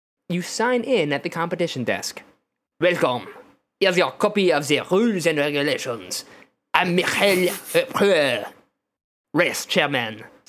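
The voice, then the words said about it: Exaggerated fake French accent. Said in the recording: “your racist French accent? ... my extremely racist French accent.”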